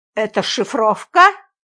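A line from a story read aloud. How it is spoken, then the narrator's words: Suspicious grunt. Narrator (Russian): подозрительно хмыкнул дежурный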